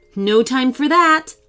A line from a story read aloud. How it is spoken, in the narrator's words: laughed Julia